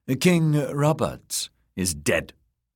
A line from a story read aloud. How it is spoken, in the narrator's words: she said sharply